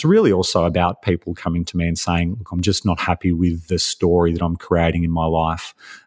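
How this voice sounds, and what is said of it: Australian accent. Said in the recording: “I sense a little bit of accent ... it's definitely Australian accent”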